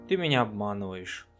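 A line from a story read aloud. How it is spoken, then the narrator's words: Sad, gloomy reply. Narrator (Russian): грустно улыбнувшись, мрачно ответила Флёр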